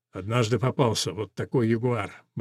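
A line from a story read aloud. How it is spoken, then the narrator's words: Muttering. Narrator (Russian): бормочет он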